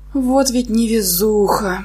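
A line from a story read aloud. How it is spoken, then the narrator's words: Inner moan, near tears. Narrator (Russian): простонала мысленно, готовая расплакаться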